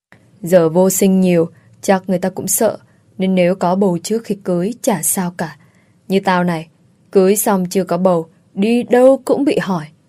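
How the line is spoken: Sighing. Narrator (Vietnamese): tôi liền thở dài đáp

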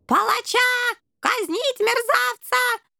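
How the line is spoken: Shrieking. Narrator (Russian): завизжал крысиный генерал

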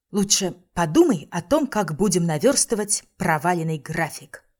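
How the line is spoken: Plain. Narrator (Russian): сказала я

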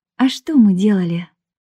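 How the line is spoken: Sighing. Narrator (Russian): вздохнула я

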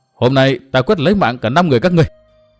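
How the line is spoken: Loud shout. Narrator (Vietnamese): Từ Mã Minh hét to

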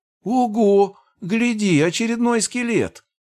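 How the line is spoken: High-pitched voice. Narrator (Russian): Высоким голосом выдал тощий черт

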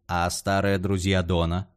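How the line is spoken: Plain question. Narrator (Russian): спросил Стейс

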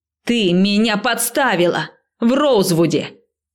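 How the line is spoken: Shouting over approaching train. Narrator (Russian): крикнула я, когда поезд был уже в нескольких метрах

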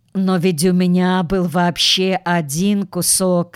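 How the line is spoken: Plain. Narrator (Russian): сказал Костя

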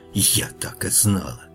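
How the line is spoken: Angry whisper. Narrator (Russian): ведьма не удивилась и только зло шепнула

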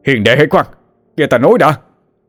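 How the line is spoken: Two men shouting urgently. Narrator (Vietnamese): Cao Vân và Trịnh Chiến vội vàng hét lên

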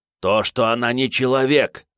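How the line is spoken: Angry spitting retort. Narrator (Russian): зло сплюнул он

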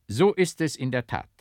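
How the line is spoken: Plain. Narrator (German): antwortete der Geistliche

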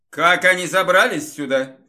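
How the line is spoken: Booming drone. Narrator (Russian): прогудел Марк

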